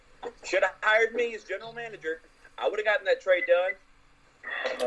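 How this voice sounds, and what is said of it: North Carolina accent. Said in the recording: “you had an accent... That's a good accent. That's a very Carolina's accent... It's not a South Carolina accent... North Carolina.”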